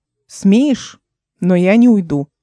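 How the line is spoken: Plain. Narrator (Russian): ответил он

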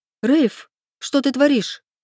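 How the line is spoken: Bewildered exclamation. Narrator (Russian): воскликнула растерянно

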